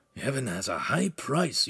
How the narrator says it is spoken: Ugolino said under his breath

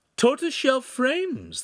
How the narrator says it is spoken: exclaimed

